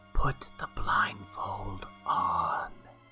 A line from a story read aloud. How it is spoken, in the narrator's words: whispered the corn